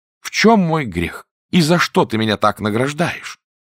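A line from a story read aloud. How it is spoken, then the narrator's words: Exclaiming fisherman. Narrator (Russian): рыбак воскликнул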